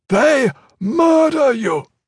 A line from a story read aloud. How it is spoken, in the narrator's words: Lord Omnichrome shouted